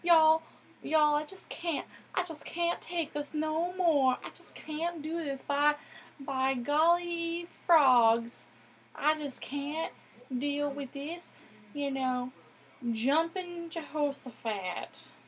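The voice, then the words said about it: Put-on Southern American accent. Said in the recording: “how can I do a southern accent? ... I don't know if I did a decent impression.”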